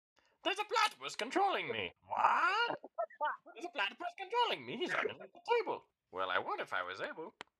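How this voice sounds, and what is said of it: Cartoon villain character voice. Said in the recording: “I would be a really good Dr. Doofenshmirtz ... Can you give us an impersonation?”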